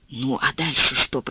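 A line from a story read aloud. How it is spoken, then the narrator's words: Whisper. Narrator (Russian): прошептал он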